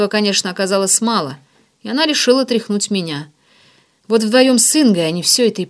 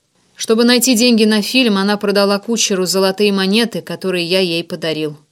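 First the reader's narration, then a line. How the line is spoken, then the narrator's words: Plain. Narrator (Russian): сказал я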